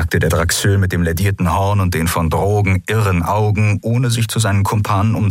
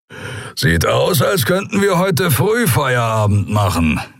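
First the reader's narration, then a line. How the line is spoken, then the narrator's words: Grumbling. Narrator (German): brummte der Skria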